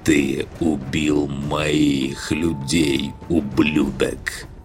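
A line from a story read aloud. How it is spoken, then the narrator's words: Slow. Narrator (Russian): Медленно произношу я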